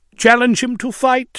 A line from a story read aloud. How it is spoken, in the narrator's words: said